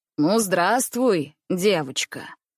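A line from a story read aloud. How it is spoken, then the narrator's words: Deep bass, stout man. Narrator (Russian): произнес густым басом полный господин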